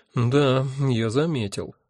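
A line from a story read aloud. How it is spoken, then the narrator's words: Sighing. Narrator (Russian): вздохнул я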